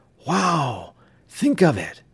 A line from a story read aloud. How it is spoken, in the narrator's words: Bud gasped excitedly